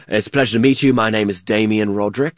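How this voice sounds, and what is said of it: Put-on British accent. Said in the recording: “pretending to be British men ... Please tell me you had an accent ... of course. We'd be talking like this”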